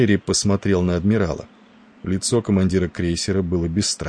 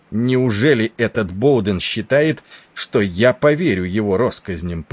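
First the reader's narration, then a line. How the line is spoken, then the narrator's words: Angry. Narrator (Russian): проговорил он сердито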